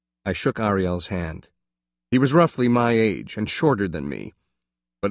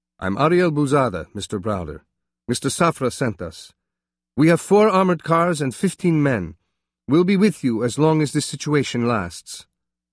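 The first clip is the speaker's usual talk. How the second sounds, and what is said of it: Israeli accent. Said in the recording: “in an Israeli accent pronounced”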